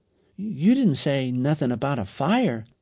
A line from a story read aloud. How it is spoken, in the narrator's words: said Aaron